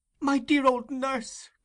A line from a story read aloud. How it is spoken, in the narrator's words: cried Oliver